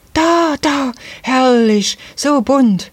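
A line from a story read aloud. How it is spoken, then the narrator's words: Child suddenly calling out. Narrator (German): rief auf einmal eines der Kinder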